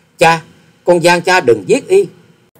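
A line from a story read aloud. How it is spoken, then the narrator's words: Choked, crying out. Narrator (Vietnamese): nghẹn ngào kêu lên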